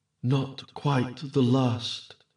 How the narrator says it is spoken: exclaimed Queen Titania

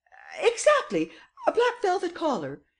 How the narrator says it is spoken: exclaimed Madame Renaud triumphantly

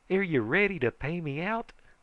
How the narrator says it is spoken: he says eagerly

